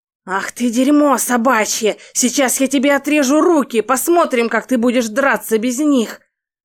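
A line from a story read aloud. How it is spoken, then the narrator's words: Thug's angry hiss. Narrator (Russian): Прошипел второй головорез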